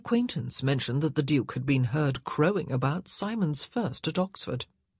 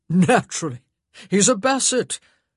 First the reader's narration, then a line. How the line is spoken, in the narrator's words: The Duke had laughed when he'd heard of the Brummel incident, and said